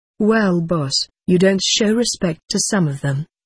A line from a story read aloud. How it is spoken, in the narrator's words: Beth replied